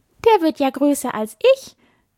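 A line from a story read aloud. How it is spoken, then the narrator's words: Small fawn laughing. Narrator (German): sagte das kleine Reh und lachte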